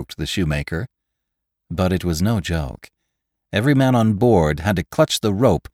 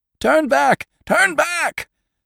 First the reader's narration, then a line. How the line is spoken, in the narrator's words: screamed the Moravian drovers